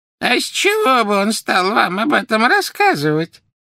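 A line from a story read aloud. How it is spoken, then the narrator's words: Creaky voice. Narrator (Russian): проскрипела Мюриэль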